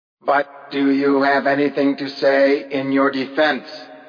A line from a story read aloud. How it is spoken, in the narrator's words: The scream was repeated